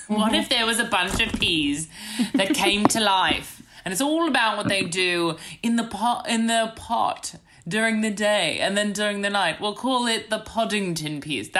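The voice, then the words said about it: Put-on British accent. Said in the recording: “That's my British accent.”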